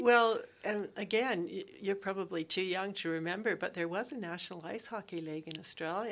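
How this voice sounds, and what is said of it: Non-Australian English accent. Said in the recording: “you might pick up from my accent that I'm not Australian”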